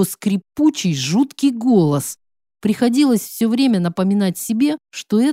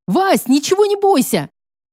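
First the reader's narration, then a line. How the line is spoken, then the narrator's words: Shouting. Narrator (Russian): закричала подруга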